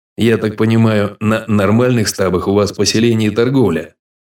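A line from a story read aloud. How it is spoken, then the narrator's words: Plain. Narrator (Russian): спросил он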